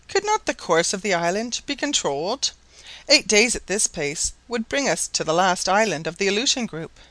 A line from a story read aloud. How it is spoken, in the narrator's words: She … at last exclaimed suddenly